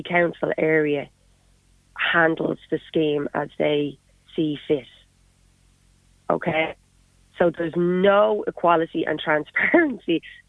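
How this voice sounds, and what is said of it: Dublin Irish accent. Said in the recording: “as you can tell by my accent, I'm a Dub originally”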